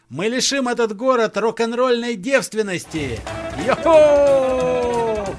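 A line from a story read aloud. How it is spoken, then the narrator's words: Group yelling. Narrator (Russian): Заорали остальные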